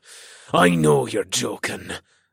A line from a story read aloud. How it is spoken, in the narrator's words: the orc captain snarled